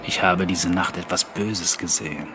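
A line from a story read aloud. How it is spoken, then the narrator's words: Plain. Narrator (German): sagte er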